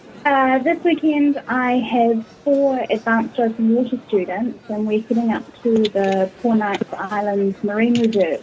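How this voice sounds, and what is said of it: New Zealand accent. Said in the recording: “you have a lovely New Zealand accent”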